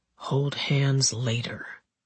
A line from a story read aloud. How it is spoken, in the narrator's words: Edward whispered